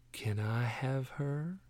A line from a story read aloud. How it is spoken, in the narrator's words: Ramirez whispered